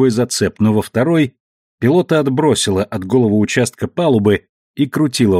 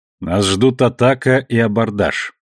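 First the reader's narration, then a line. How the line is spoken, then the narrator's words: Surprisingly calm, female. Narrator (Russian): на удивление спокойно произнесла женщина-капитан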